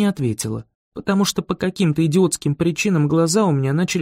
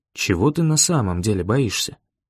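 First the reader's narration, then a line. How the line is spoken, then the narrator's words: Gentle question. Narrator (Russian): спросил он так мягко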